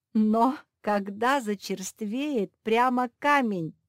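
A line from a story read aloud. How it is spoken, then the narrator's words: Baker laughing. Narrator (Russian): засмеялся пекарь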